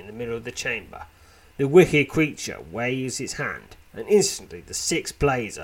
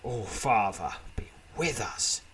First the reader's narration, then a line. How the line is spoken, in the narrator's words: mutters Uriel